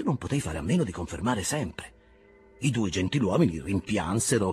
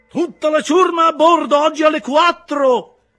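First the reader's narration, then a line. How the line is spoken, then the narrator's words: Gentleman shouting after him. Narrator (Italian): gli gridò dietro il cavaliere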